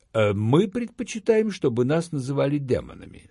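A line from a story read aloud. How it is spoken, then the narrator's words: Calm. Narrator (Russian): спокойно ответил Гамигин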